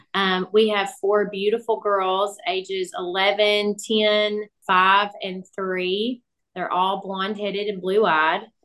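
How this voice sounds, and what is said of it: Southern US accent. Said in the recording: “our southern accents a little bit”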